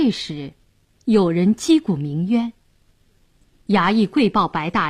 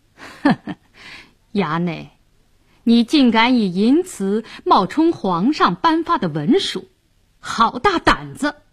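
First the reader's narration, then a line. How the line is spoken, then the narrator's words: Sneering. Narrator (Chinese): 白世忠冷笑道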